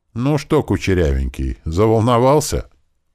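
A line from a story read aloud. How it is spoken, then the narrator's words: Amused grunt. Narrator (Russian): Эрик хмыкнул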